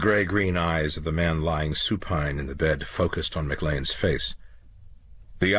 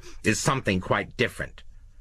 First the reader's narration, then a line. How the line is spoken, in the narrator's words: Lowe said sharply